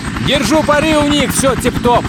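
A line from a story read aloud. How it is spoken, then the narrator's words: Shouted. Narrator (Russian): Кленси действительно кричал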